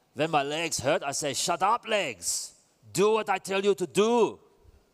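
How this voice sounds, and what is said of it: Poor German accent imitating Jens Voigt. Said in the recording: “you butchered a German accent, didn't you ... It's Jens Voigt.”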